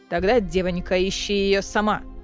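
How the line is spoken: Cold remark. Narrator (Russian): холодно заметила Несте Амрена

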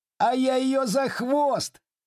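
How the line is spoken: Distant shout. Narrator (Russian): крикнул издали Сергей

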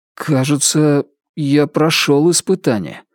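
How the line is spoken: Uncertain. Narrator (Russian): неуверенно проговорил Ричард Мэхью

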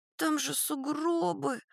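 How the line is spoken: Sad sigh. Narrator (Russian): грустно вздыхает Вера

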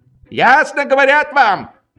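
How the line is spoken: Shouting. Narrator (Russian): крикнул Швейк

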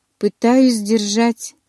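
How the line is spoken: Hoarse young man. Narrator (Russian): прохрипел парень

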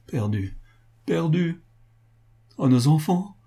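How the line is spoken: Heartbroken cry. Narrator (French): s'écria Sophie d'une voix déchirante

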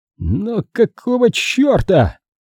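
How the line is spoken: Groaning. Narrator (Russian): застонал Пейнтер

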